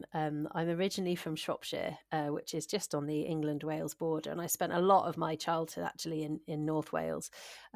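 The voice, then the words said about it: English accent, not local Scottish. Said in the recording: “I live in Aberdeenshire now, but I didn't grow up here, and you can probably tell that from my accent.”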